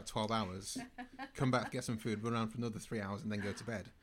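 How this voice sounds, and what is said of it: Manchester English accent. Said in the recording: “that's not a London accent, is it? ... I'm from Manchester.”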